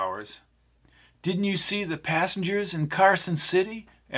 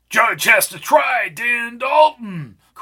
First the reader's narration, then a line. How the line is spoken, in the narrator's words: cried Albie